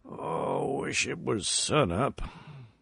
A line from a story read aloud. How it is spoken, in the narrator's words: as many times his eyes opened and he murmured wearily